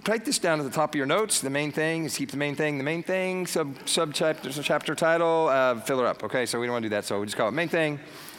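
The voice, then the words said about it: Talking very fast. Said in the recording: “I'm talking too fast, huh? ... So I have to talk fast to get everything in.”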